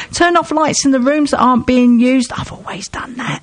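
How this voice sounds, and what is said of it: Whispering. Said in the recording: “Don't know why I'm whispering.”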